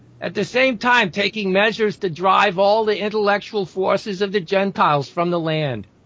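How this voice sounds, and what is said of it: New York-sounding accent. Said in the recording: “when you read it with that accent, which tends to sound kind of like a New York, even though you're trying not to”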